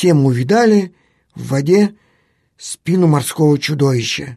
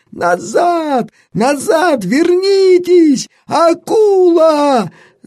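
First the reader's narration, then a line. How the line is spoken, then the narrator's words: Alarmed shout. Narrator (Russian): закричал артиллерист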